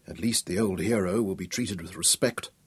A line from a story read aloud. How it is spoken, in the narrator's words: said softly